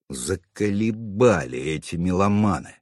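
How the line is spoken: Fierce grumble. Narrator (Russian): свирепо проворчал я

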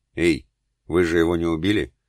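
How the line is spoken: Soft, slightly husky female voice. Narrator (Russian): Мягкий, отдающий чуть в хрипотцу женский голос

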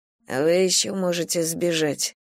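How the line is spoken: Tired exhale. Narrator (Russian): устало выдохнула я

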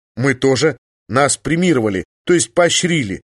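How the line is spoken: Timid. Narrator (Russian): робко сказал

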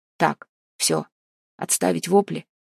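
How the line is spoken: Loud bark. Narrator (Russian): гаркнул Максим Владимирович

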